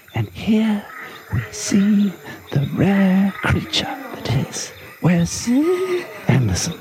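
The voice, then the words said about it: Posh nature-documentary narrator voice. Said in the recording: “You need a posh accent for Quote Corner. ... Of course, like David Attenborough.”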